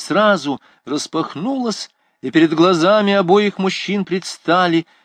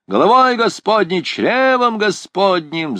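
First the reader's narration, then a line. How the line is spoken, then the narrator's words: Yelling. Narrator (Russian): заорал капитан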